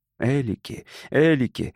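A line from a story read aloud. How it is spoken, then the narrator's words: Shouting through sobs. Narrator (Russian): выкрикивал сквозь рыдание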